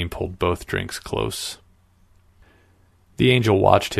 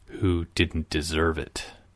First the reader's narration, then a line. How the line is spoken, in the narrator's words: Salim growled